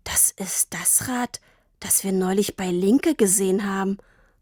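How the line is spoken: Breathy whisper. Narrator (German): hauchte Papa

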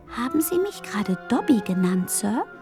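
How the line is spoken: Curious muffled elf squeak. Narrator (German): piepste der Elf neugierig zwischen den Fingern hindurch

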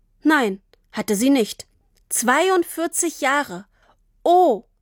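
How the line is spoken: Plain. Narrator (German): sagte Tini

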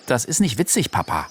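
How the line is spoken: Stern. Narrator (German): sagte Chayda streng

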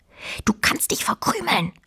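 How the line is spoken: Quiet hiss. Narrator (German): zischte Fine leise

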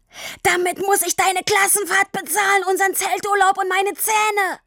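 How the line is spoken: Roaring on after breath. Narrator (German): Nachdem er ausreichend Luft geholt hatte, brüllte er weiter

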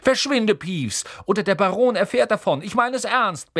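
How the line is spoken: Barking sharply. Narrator (German): bellte Percy

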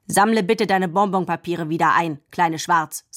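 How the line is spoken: Stern. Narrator (German): sagte er streng

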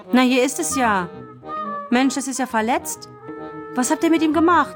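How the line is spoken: Sudden exclamation. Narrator (German): rief plötzlich

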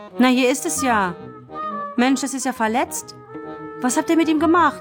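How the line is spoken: Sudden call. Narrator (German): rief plötzlich

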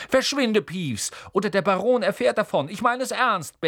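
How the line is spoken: Barking sharply. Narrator (German): bellte Percy

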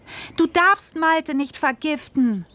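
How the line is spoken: Screaming. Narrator (German): schrie ich

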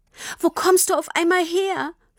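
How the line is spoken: Sobbing question. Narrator (German): fragte Tini immer noch schluchzend

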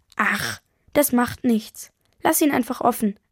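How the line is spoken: Plain. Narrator (German): sagt Mama

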